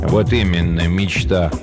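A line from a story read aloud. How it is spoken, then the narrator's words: Gloomy reply. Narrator (Russian): мрачно отозвался Горюн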